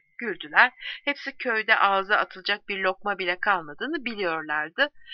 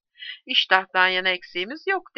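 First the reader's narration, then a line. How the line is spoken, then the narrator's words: Plain. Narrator (Turkish): dedi birisi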